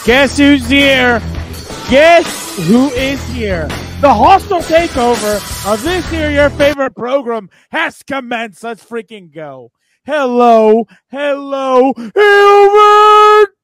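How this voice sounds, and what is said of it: Yelling, loud amped-up announcement. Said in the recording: “I thought people told you to stop yelling. You're doing it again.”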